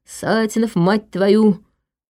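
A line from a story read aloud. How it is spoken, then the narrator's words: Cursing hiss through teeth. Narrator (Russian): чертыхается, шипит сквозь зубы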